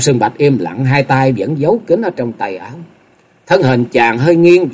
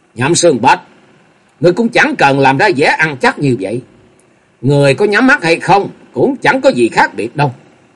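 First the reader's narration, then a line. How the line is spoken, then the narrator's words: Loud mocking laugh. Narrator (Vietnamese): Dịch Hương Trúc cười lớn giọng đầy mỉa mai nói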